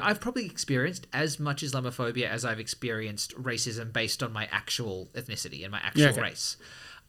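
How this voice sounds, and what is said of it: Australian accent. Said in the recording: “has a pretty Australian accent”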